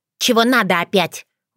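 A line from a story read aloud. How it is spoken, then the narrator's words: Rude, exhausted question. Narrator (Russian): грубо спросила обессилевшая фея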